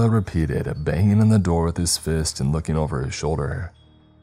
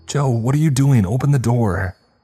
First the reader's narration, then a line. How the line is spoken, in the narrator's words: Lorraine shouted from behind